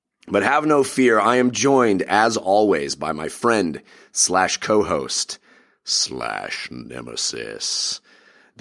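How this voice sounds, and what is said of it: Sick, under-the-weather voice. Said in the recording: “I apologize for the way my voice sounds. I'm a little under the weather.”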